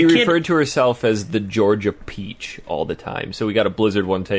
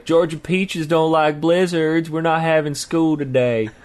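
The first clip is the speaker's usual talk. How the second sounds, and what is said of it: Put-on Georgia Southern accent. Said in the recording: “That's my Georgia accent, I guess.”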